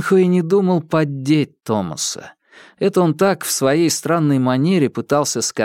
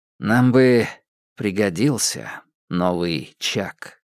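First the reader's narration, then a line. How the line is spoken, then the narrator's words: Unexpectedly soft tone. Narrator (Russian): произнес он неожиданно мягким тоном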